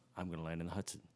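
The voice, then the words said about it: Calm pilot radio voice. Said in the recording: “pilots typically are like very calm and collected ... They go right to that radio voice.”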